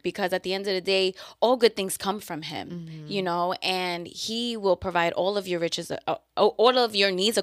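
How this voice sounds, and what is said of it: New York accent. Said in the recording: “my own accent? ... your New York really just be coming out”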